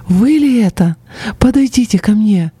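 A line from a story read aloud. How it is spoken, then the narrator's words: Beaming exclamation. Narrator (Russian): просияв, она воскликнула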